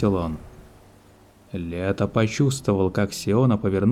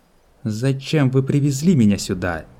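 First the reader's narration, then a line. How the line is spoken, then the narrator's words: Angry question. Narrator (Russian): зло спросила Сиона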